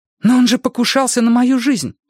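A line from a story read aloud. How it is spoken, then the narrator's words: Exclaimed. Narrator (Russian): воскликнула Джулия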